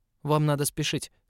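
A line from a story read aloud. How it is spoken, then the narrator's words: Rather sharp. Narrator (Russian): сказал ему в тот раз довольно резко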